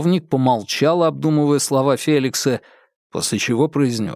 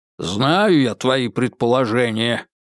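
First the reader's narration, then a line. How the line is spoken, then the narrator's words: Grumbling. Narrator (Russian): проворчал подполковник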